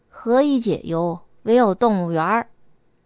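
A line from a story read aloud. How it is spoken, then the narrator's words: Sighing. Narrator (Chinese): 伊娜叹道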